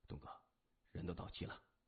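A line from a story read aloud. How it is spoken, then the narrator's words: Whispering in ear. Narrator (Chinese): 江森低声附耳说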